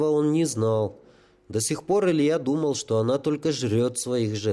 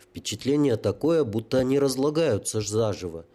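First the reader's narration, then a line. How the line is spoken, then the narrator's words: Stunned muttering. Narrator (Russian): ошеломленно пробормотал Илья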